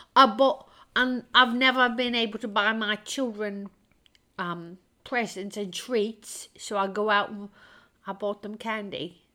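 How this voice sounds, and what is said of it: Poor put-on British accent. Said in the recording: “my British accent is horrible today”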